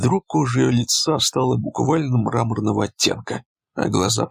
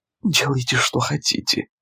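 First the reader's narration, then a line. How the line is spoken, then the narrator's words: Whisper. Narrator (Russian): прошептала Карен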